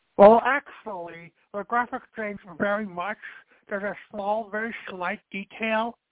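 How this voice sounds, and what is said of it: Cliché nerd voice impression. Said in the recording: “my cliche nerd impression”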